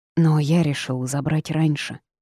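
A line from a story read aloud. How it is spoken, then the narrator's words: Sighing young man. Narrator (Russian): вздохнул парень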